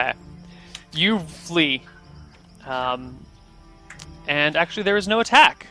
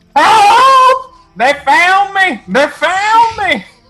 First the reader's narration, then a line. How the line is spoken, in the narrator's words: screaming